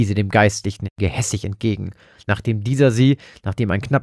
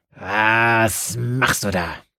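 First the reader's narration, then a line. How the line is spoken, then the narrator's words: Snarling. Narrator (German): knurrte sie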